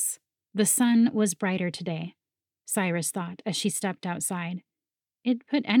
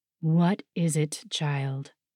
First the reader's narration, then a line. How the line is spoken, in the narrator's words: the dragon rumbled